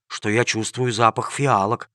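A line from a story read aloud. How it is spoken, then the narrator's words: Surprised whisper. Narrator (Russian): удивленно прошептал один из рабочих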